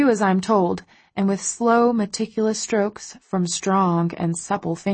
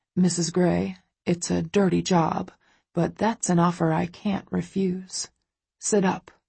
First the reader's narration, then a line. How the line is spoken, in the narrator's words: he orders, his voice husky